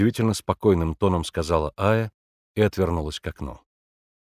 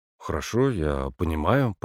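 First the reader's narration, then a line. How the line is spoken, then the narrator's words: Muttering. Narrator (Russian): пробормотал Егор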